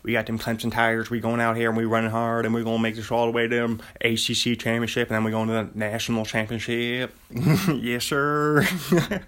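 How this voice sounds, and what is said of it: Quick-talking Southern Dabo Swinney impression. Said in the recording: “You just got to get that quick-talking Southern person.”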